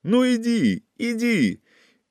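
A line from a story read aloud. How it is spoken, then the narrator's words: Shouting against fierce wind. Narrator (Russian): кричал Павел, а ветер подхватывал его слова и свирепо втискивал их обратно в его горло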